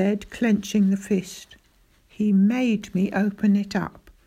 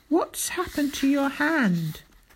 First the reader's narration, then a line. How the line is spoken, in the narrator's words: cried